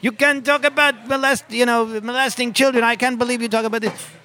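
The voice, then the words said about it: Loose French-Canadian accent, shouting. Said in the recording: “some French-Canadian woman came out and started screaming at me ... That's not really a French-Canadian accent, but you get the idea”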